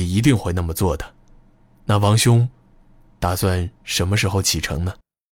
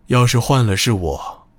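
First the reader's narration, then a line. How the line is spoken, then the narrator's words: Gentle reply. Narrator (Chinese): 刘志高声音温和的应道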